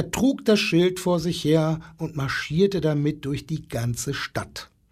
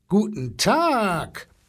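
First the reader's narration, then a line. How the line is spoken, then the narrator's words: Booming elephant bluster. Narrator (German): polterte der Elefant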